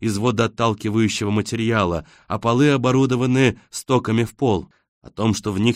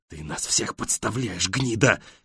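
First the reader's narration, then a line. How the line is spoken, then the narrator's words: Shouted whisper. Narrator (Russian): кричат ему шепотом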